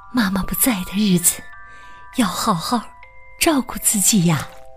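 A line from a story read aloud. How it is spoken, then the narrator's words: Soft gentle reminder. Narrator (Chinese): 卡梅拉…轻声的叮嘱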